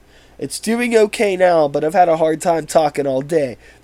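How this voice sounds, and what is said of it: Raspy, hoarse sick voice. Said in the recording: “I am a little sick and my voice is very raspy.”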